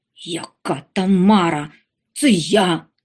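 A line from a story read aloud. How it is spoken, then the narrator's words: Irritated grumble. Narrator (Ukrainian): роздратовано буркнув Ондатр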